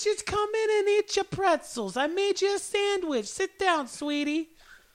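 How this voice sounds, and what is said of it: Exaggerated Long Island mother voice. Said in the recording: “just a little bit of a Jewish mother ... Long Island mother”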